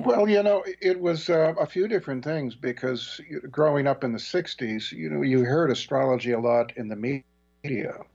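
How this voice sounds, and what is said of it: Good radio voice. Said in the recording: “You have a good radio voice ... Really good radio voice.”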